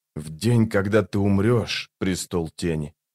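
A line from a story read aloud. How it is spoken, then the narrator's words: Quiet. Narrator (Russian): тихо сказал он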